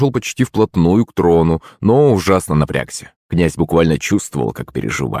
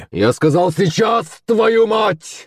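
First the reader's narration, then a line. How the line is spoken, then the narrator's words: Yelling. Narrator (Russian): заорал Шувалов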